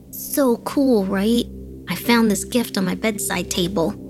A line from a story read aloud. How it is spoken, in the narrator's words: he exclaimed